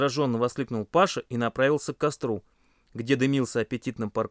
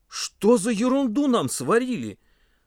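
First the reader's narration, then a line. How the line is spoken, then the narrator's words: Exclaimed. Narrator (Russian): воскликнул он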